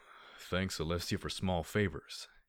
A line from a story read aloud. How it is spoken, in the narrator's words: he said with a deep sigh